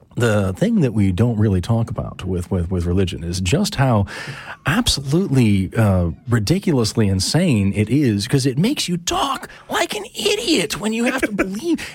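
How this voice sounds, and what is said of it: Impression of Seth Andrews. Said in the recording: “I'm doing my best Seth impression. That was bad.”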